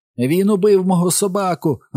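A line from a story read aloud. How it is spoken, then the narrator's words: High broken scream. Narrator (Ukrainian): закричав Майк високим зламаним голосом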